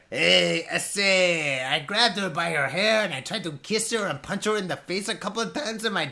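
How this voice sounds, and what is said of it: Put-on Mexican Spanish accent. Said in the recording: “Could you do one? ... that was clearly Mexican. That was not totally Spanish.”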